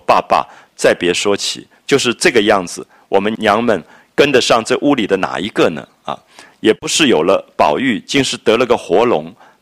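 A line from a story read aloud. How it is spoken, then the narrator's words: Scornful snort of laughter. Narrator (Chinese): 那赵姨娘鼻子里就笑一笑说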